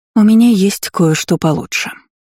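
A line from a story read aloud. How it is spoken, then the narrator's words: Soft reply. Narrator (Russian): мягко ответила Дисси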